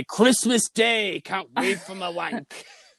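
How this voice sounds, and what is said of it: Unconvincing put-on foreign accent. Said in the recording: “that accent wasn't the least American accent that's ever existed”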